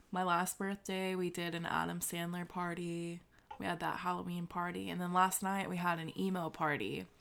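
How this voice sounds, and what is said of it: Slightly scratchy, hoarse voice. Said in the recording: “my voice is a little scratchy. It's because I was literally screaming "I'm Not Okay" by MCR last night”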